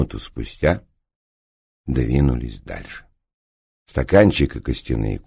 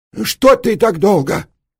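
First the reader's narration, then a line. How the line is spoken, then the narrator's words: Shouting. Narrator (Russian): закричал Морони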